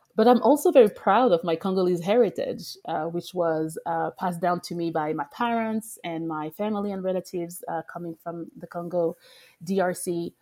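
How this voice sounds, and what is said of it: French accent. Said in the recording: “My accent is French also still, even after 12 years in the US.”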